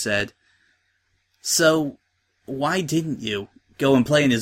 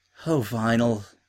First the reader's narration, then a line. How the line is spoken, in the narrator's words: she said sadly